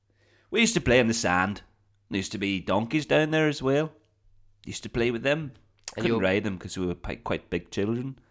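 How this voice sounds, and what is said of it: Mixed, inconsistent accent. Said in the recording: “my accent's all over the place”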